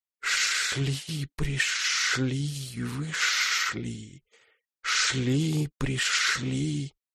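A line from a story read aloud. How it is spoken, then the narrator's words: Gentle whisper. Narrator (Russian): ласково нашептывает прибой вечное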